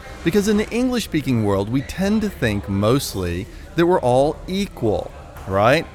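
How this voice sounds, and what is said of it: American accent. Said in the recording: “I'm an American, as you can hear from my accent”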